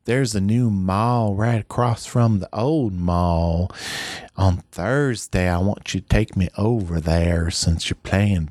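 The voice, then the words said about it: Put-on Southern US accent. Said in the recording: “I really slipped into a Larry the Cable Guy southern accent there ... It kind of sounded a little more Gator Done.”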